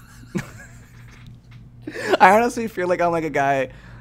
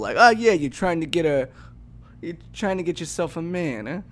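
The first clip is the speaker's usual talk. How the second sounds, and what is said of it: Old-school guy voice impression. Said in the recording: “The voice that you just did was your old school impression? People, yeah, like, everybody in old school talk like that.”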